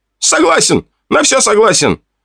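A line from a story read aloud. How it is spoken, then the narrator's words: Panicked shout. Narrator (Russian): В панике прокричал он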